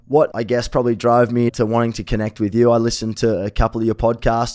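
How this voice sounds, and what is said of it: Slightly raspy voice. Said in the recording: “I might sound a little bit raspy. That's just a bit of my jet lag probably”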